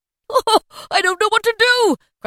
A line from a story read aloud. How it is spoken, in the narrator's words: cried Scrooge, laughing and crying in the same breath